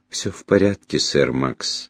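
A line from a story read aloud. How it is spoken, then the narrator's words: Soft speech. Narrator (Russian): мягко сказала вдова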